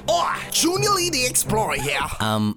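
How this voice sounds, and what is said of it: Poorly done put-on accent. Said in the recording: “That accent is not good at all.”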